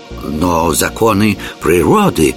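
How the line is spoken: Timid. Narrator (Russian): робко начал Яртур

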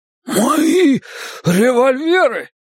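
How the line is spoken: Exclamation. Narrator (Russian): воскликнул Джеспер

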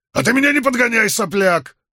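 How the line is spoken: Snapping back rudely. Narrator (Russian): огрызнулся Грин

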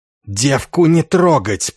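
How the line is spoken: Hissing. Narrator (Russian): прошипел змееголовый

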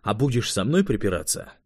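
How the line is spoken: Icy tone. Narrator (Russian): ледяным тоном добавил швед

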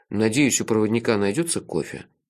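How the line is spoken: Gloomy, dreading. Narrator (Russian): мрачно сказал я, заранее содрогаясь от вкуса растворимой бурды

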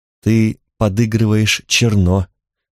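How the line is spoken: Weary. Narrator (Russian): устало сообщила Танталь

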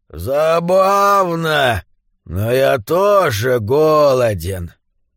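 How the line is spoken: Very low growling voice. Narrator (Russian): Он ответил ей удивительно низким голосом, словно рычал

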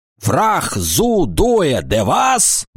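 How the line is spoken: Roared. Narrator (Russian): взревел сержант

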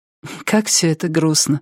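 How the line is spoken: Sighing. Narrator (Russian): вздохнула она

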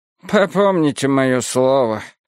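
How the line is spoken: Meek sigh. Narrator (Russian): смиренно вздохнула Ида Рью

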